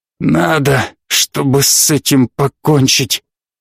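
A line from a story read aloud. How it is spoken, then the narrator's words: Breaking, hoarse voice. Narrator (Russian): Голос у него срывался и хрипел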